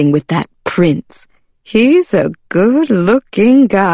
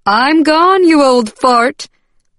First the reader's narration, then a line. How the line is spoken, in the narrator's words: Patricia hollered from the living room